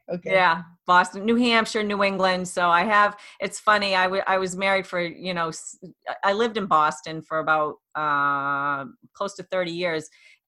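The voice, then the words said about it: Boston accent. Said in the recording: “I can hear an accent. ... I'm Boston. ... I had more of a Boston accent than I think some of the people down there.”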